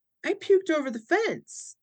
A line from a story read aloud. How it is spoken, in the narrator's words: she, in the chipperest voice, goes